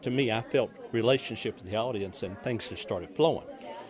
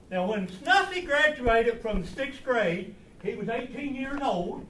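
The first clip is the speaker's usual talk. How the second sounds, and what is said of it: Thick put-on accent, toothless. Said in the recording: “laid on a thick accent ... taking a teeth out helps a lot, too ... he removed his false teeth for his performance”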